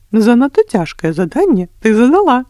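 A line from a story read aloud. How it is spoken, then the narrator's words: Smiling king. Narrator (Belarusian): усміхнувся король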